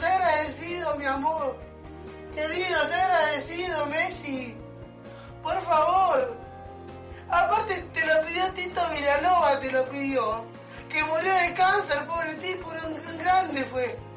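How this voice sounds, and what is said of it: Inconsolable crying, Argentine accent. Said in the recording (Spanish): “Este llanto desconsolado, con acento argentino ... Este tango triste, de pocas palabras ... este pibe llora”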